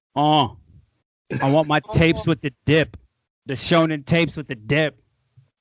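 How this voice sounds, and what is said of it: Imitates another person's voice. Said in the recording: “My Drake impression”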